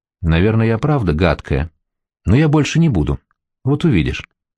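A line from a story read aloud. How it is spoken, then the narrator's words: Quiet, bewildered. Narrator (Russian): тихо сказала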